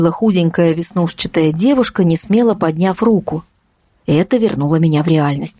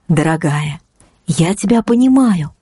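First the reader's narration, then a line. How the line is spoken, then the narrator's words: Gentle reply. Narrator (Russian): мягко ответила наставница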